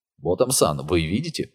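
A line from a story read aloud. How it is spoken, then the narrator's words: Whisper in the ear. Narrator (Russian): прошептал голос Сата в ухо Нику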